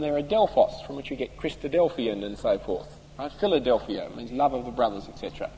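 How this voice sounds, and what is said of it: Australian accent. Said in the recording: “my strine accent in Greek”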